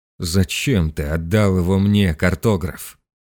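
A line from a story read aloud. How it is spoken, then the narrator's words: Groaning. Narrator (Russian): простонал он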